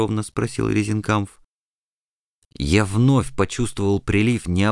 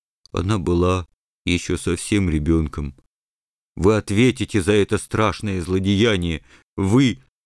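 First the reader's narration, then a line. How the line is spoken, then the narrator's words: Tearful, muffled voice. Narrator (Russian): Бульдозер с глазами полными слез глухо произнес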